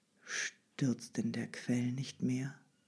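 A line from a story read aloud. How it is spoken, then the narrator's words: Flat toneless question. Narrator (German): Endlich fragte sie mit tonloser Stimme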